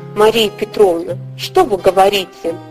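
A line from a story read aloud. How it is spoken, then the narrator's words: Confused mutter. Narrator (Russian): в замешательстве забормотал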